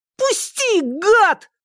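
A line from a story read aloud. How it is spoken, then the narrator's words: Sudden yell. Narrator (Russian): вдруг завопил Сенька, снова получивший возможность говорить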